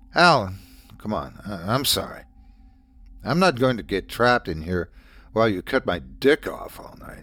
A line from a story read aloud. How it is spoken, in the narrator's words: said through clenched teeth